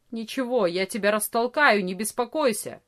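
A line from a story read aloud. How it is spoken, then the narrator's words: Angry grumble. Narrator (Russian): сердито проворчал Ария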